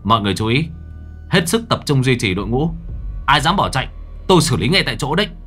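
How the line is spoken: Loud commanding orders. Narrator (Vietnamese): Anh lớn tiếng chỉ đạo

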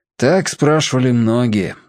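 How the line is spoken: Sighing. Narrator (Russian): опять вздохнул отец

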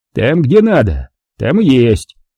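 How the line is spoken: Almost good-natured grumble. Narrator (Russian): проворчал он почти добродушно

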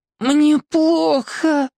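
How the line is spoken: Hoarse rasp. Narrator (Russian): прохрипела

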